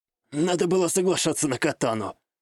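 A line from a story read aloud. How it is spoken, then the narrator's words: Hoarse chuckle, young man. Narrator (Russian): хрипло усмехнулся парень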